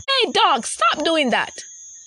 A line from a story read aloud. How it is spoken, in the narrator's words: she yelled